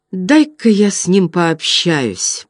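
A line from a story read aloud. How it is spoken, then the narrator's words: Soft. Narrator (Russian): тихонько сказал Хилвар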